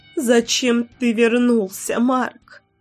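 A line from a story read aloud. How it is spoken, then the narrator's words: Mother sobbing. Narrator (Russian): всхлипывала мама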